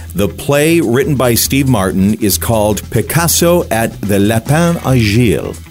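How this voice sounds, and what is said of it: Poor French accent. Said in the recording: “pardon my poor French accent”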